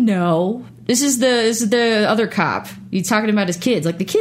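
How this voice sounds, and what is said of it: Usual voice. Nothing is said of it.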